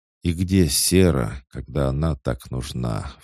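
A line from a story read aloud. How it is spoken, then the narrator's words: Sighed. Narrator (Russian): вздохнул Хаджар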